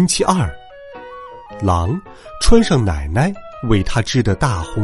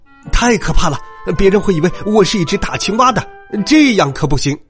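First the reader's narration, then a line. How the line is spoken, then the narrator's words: Shouting in alarm. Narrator (Chinese): 大叫起来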